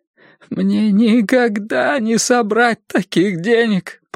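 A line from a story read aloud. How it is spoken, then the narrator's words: Groan. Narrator (Russian): простонал он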